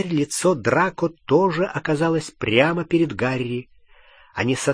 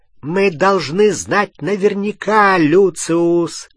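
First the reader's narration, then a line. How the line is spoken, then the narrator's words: Cold clear shout. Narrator (Russian): крикнула она мужу холодным, ясным голосом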